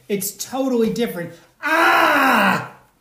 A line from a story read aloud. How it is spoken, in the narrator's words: screams of the latke grew quieter and quieter